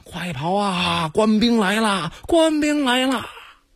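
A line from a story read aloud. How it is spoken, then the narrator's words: Shouting while running. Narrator (Chinese): 老百姓 一边跑一边喊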